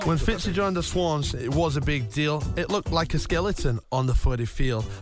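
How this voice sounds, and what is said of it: Thick accent, deep voice. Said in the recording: “I've got a thick accent ... my deep voice leaves people shocked”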